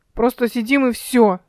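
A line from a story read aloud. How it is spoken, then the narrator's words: Sharp declaration. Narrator (Russian): резко заявил Димка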